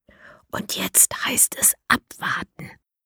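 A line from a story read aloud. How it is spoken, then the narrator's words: Whispered. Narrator (German): flüstert Mara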